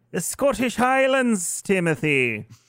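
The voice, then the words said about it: Poor put-on Irish accent. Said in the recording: “Very Irish... that shitty accent”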